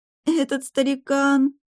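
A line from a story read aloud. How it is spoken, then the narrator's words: Moaning. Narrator (Russian): простонала я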